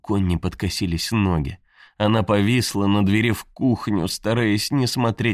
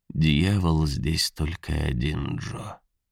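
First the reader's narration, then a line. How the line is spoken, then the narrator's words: Gentle. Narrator (Russian): мягко сказал Хэл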